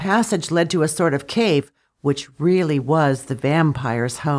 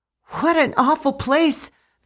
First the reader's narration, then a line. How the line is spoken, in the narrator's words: the poor girl cried in terror